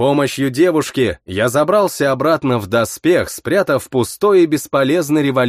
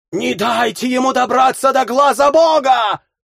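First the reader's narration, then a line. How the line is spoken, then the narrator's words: Defeated shout. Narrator (Russian): крикнула поверженная седая ящерица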